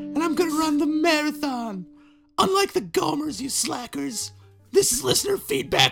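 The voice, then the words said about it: Awful imitation of another person's voice. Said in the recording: “that impression ... it was awful”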